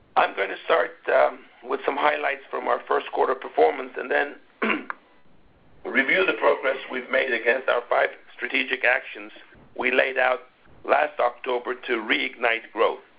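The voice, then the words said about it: Rough, sick-sounding voice. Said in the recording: “apologies for the state of my voice. I have a cold”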